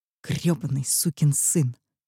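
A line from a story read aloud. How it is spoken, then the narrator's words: Hissed. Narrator (Russian): прошипела я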